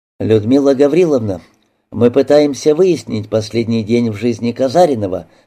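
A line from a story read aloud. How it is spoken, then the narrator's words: Plain. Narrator (Russian): сказал Голубев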